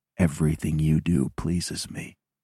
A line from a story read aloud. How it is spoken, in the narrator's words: My voice sounds strangled as I whisper